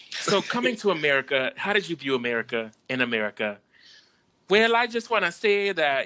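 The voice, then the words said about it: Put-on Caribbean accent. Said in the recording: “We not about to do the accent. ... We don't need the Caribbean community. ... we did not condone that accent.”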